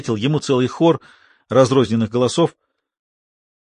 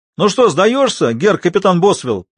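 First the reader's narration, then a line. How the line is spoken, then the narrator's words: Shout from unseen speaker. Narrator (Russian): прокричал кто-то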